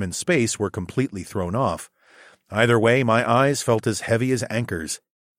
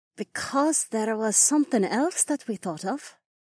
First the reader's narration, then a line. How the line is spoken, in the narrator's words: Imarla murmured as she bit her lower lip